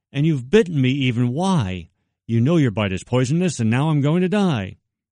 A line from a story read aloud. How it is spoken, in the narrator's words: cried that woman